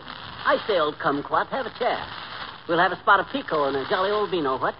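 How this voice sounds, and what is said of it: Put-on posh British accent. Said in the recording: “this Bond Street brogue ... when you pick a fellow with a British accent”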